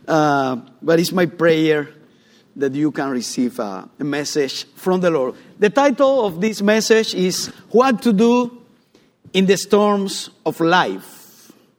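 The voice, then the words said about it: English with a Cuban accent. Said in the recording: “my English with Cuban accent”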